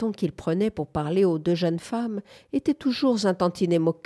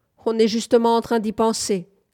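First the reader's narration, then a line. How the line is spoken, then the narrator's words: Husband shouting. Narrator (French): cria son mari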